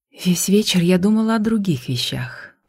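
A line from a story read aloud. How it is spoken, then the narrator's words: Whisper. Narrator (Russian): прошептала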